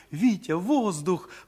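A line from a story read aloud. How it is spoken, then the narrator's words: Alarmed cry. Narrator (Russian): вскрикнула Даша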